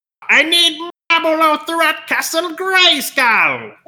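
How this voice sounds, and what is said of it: Skeletor cartoon villain voice. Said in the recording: “that phone call from Skeletor ... do the voice.”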